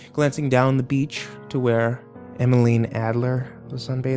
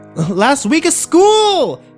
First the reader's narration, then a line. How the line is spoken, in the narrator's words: Kimber yelled